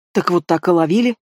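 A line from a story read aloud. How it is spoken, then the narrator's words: Angry mutter, old man. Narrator (Russian): сердито буркнул дедок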